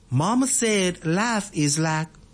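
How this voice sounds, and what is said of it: Put-on Southern American accent. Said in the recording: “I have to put in an accent because that's how he talks ... He has a very distinctive Alabama accent ... Alabamian accent, but yes, a Southerner accent”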